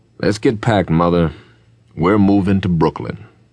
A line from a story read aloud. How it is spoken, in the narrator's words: calmly announced to his wife